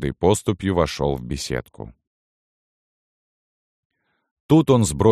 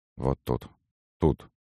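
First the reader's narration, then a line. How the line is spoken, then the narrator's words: Muttering. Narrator (Russian): бормотал преображенец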